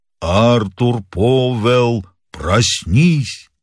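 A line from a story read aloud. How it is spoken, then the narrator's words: Hollow sepulchral voice. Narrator (Russian): сказала глухим замогильным голосом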